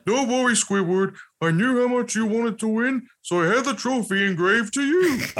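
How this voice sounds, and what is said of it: Patrick Star impression. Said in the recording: “I can definitely do Patrick... Can I hear your Patrick”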